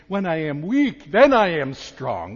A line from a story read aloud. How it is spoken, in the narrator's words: Paul will exclaim